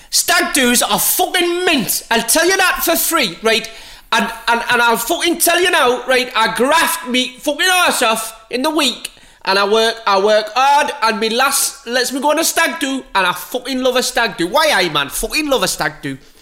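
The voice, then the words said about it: Put-on Geordie accent. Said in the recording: “I can only do a Geordie accent if I say the F word after every time”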